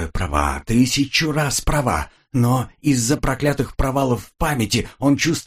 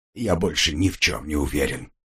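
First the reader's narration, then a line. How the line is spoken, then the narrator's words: Muttered. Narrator (Russian): пробормотал он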